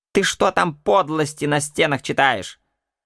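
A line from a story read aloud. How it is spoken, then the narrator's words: Shouted. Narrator (Russian): крикнула на меня матушка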